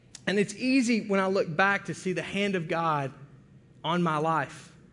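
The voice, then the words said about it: Thick Arkansas accent. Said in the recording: “you think I have a thick accent now ... moved here from Arkansas”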